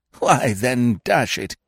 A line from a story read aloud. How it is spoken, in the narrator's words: cried his lordship